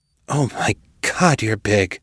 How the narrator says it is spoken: panted

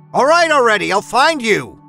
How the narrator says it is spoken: shouted at the image

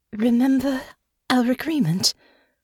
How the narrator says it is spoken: Honor said, her voice low and trembling

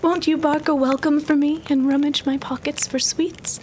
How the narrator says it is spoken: she pleaded and begged

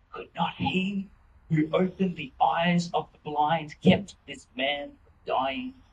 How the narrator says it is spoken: the crowd murmuring

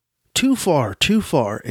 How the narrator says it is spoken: exclaimed the goodman

